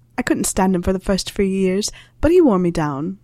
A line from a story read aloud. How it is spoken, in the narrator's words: she laughed